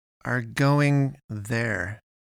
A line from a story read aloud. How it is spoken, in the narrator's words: she said slowly, with the emphasis of an explanation given to an idiot